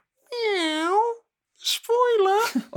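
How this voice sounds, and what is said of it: Imitates a cat meowing. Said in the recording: “that's quite a good impression for someone that's never owned a cat”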